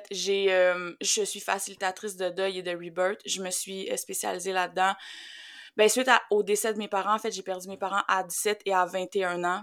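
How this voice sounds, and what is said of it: Quebec French accent. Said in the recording (French): “j'habite sur la rive sud de Montréal ... Qu'on l'entend avec notre accent”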